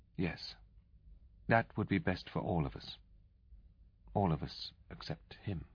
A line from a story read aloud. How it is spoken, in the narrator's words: she added, half sadly